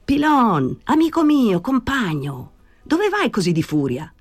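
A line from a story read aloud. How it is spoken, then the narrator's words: Shouting. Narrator (Italian): gridò Danny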